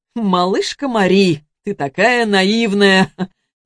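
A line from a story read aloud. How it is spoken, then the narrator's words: Short laugh. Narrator (Russian): хохотнул Антон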